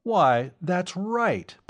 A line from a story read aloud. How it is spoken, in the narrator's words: Professor Kelton exclaimed